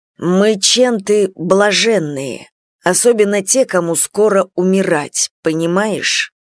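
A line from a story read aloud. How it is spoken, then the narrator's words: Through gritted teeth. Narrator (Russian): Процедили от плиты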